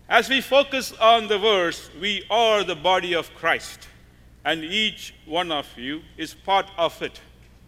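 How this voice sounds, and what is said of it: Non-native accented English. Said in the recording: “kindly forgive my accent, the way I pronounce, because it will be different than what you normally hear”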